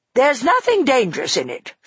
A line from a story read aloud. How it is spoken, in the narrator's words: said crossly